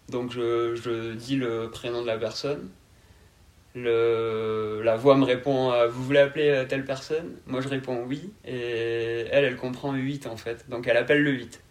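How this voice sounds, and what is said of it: Southern French accent. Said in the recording (French): “est-ce que c'est dû à mon accent ... tout simplement mon accent n'est pas adapté à ce genre de ce genre d'appareil ... l'accent du sud”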